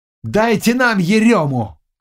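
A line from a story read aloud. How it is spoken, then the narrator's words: Shouting. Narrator (Russian): кричал Ешевский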